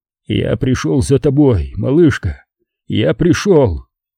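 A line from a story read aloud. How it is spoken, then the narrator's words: Quiet, choked with emotion. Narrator (Russian): Маг огромным усилием воли проглотил ком, стоявший у него в горле, и тихо сказал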